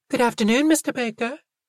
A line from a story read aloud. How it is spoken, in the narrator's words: Fee and Talia said sweetly